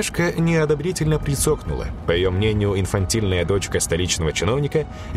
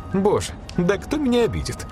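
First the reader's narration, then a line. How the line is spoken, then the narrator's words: Laughing. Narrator (Russian): засмеялась блондинка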